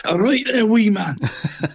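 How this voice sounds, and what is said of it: Put-on Scottish accent. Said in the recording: “you've got to say it in a Scottish accent”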